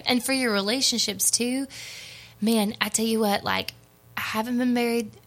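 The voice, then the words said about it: Texas accent. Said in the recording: “that sounded like buried because of my Texas accent”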